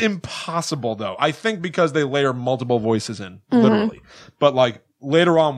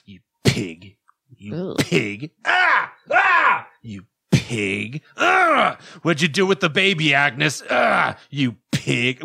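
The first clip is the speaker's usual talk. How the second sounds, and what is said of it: Disturbing imitation of a menacing caller. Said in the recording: “I'm going to try to do an impression ... That sounds extremely disturbing.”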